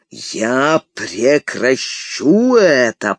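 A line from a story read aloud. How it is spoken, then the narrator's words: Thundering. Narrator (Russian): прогремел он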